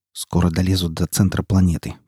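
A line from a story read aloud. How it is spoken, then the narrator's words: Mumbling. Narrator (Russian): пробормотал он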